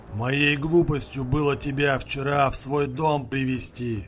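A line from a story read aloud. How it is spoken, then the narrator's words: Vicious growl through teeth, old man. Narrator (Russian): злобно прорычал сквозь зубы дед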